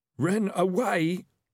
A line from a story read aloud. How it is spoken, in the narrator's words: said the highwayman hoarsely